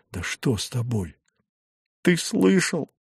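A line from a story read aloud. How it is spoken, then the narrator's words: Sobbing, gasping. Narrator (Russian): Она всхлипнула, хватая ртом воздух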